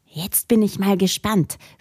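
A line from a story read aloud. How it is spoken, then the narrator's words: Whispered. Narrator (German): flüsterte Jonas den anderen zu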